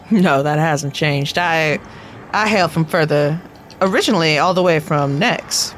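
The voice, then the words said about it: Put-on accent, done badly. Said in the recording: “I thought maybe that accent was common in Sothis now ... That's really bad here ... Why am I talking in that accent? ... I don't know why you're talking like that accent.”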